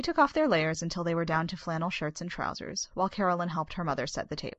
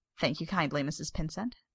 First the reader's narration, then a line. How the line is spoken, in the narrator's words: Bob said